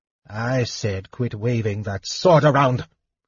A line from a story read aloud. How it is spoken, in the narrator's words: Fizban snapped irritably